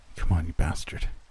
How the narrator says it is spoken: somebody muttered behind me, anxiously

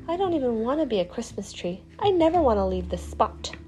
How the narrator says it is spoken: the little tree mumbled

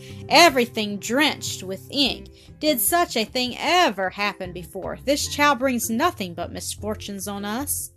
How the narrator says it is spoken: Miss Rottenmeier exclaimed, wringing her hands

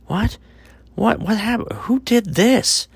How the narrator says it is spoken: Thomas cried out

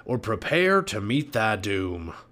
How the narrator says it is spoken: growled

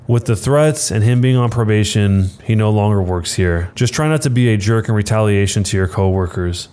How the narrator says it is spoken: He sighed and said

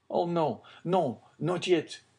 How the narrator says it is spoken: he cried

